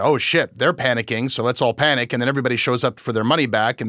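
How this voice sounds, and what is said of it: Usual voice. Nothing is said of it.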